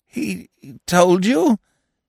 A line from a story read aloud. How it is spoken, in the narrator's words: he stammered